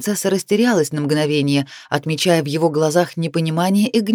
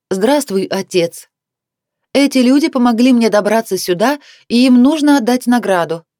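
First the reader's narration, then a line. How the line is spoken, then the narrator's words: Loud. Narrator (Russian): громко произнесла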